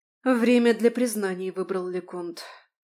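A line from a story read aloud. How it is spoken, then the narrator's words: Breathless exhale. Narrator (Russian): выдохнула Марион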